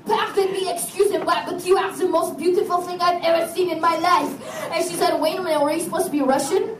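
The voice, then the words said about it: Bad put-on French accent. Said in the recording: “I cannot do a Russian accent, and this awful French one is the only one that I can do”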